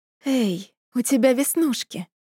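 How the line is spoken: Whisper against lips. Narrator (Russian): прошептала я в его распухшие от поцелуев губы

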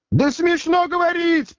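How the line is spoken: Piercing scream. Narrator (Russian): пронзительно закричал Римский

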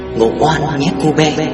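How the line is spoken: Soft whisper. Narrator (Vietnamese): khẽ thì thầm vào tai tôi

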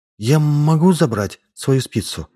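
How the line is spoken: Timid addition. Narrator (Russian): Фиона робко добавила

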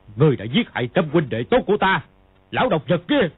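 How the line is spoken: Angry shout. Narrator (Vietnamese): Tiếng quát, Kha Trấn Ác

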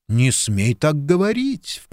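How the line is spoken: Mock-horrified exclamation. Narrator (Russian): в притворном ужасе воскликнула Лиз

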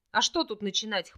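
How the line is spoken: Wry snort. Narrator (Russian): хмыкнул Орлик

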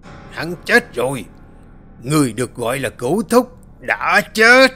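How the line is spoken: Loud shout. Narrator (Vietnamese): lão miệng hét lớn

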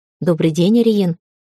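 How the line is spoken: Surprisingly soft. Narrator (Russian): сказал он, и сегодня его голос звучал удивительно мягко

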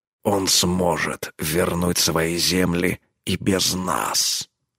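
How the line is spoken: Growl. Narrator (Russian): рыкнул он

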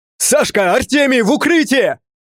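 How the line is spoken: Shout. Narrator (Russian): Крикнул

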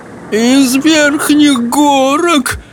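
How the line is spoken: Moaning. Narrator (Russian): простонал человек-пес

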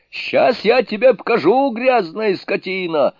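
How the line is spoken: Yelling angrily. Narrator (Russian): орал Джубадзе

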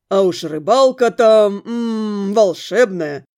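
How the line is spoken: Smirking, smiling. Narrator (Russian): хмыкнув, улыбнулась парню

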